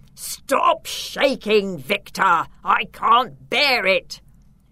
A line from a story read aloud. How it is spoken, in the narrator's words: the Count roared